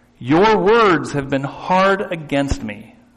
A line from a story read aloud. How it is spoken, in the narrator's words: says the Lord